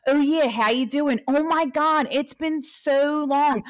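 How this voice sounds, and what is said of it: Put-on Northeast Philly accent. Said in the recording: “from Northeast Philly ... I just like could flip into it, into the accent.”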